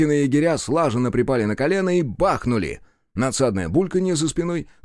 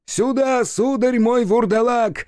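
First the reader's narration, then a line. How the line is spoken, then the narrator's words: Yelling. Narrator (Russian): заорал Сашка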